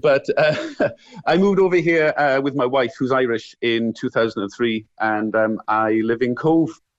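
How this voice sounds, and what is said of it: Welsh accent. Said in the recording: “that lovely Welsh accent ... thanks for the compliment for the lovely Welsh accent.”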